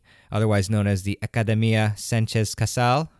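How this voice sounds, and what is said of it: Attempted Spanish accent on name. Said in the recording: “I hope that I had a pretty decent accent there.”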